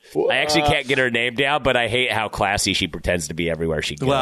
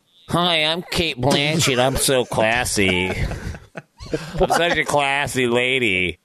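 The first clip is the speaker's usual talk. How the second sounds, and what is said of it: Cate Blanchett impression. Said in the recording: “my Cate Blanchett impersonation”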